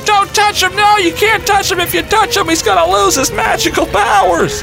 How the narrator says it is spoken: my nephew starts screaming at me

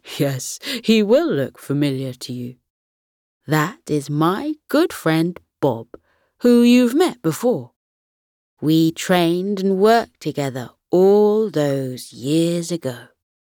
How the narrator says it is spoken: Grandpa Gus chuckled and replied

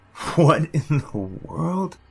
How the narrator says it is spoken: Hollis chuckled

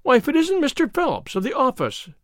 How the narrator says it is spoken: she cried

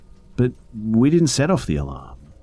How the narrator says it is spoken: I said, stammering, and I actually started to cry

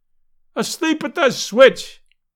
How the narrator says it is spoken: yelled the delighted fan

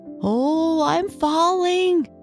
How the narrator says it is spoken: he cried

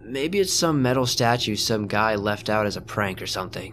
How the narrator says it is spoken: Omar said

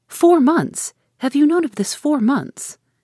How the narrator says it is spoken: After a pause of wonder, she exclaimed

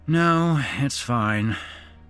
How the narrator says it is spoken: Matt sighed

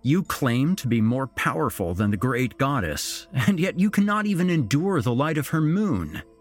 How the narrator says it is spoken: I scoffed

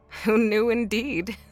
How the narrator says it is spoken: Nora replied, laughing

